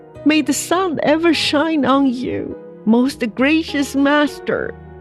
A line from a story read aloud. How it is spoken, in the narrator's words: cried Xie